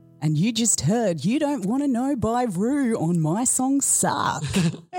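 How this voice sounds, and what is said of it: Announcer-style radio DJ voice. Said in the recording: “There's a radio voice. ... Very good radio voice.”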